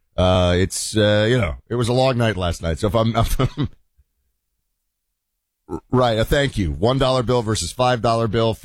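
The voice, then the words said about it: Slightly husky hoarse voice. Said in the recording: “My voice is a little husky”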